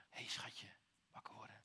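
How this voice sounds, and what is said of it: Soft whispered voice. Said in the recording (Dutch): “Misschien dat Jezus ook wel fluisterde.”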